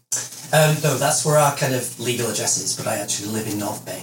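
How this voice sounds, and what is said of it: Slight British accent. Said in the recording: “I detected a bit of an accent ... I'm from the UK originally”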